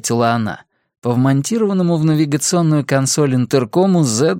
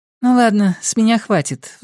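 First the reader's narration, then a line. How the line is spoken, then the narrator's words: Sighing. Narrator (Russian): вздохнула Тиффи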